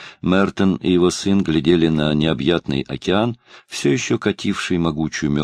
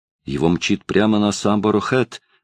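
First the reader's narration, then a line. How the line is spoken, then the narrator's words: Exclaimed. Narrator (Russian): воскликнул Мордонт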